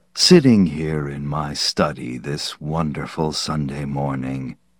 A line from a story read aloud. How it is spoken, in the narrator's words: Yancey rumbled on